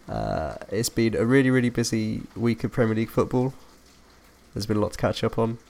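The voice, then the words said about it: Strained, fading voice. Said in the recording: “I've been losing my voice this week”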